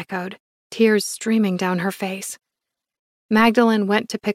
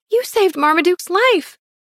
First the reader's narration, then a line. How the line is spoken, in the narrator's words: Bertie cried